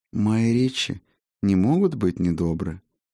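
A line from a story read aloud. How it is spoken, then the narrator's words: Soft objection. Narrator (Russian): мягко возразил тот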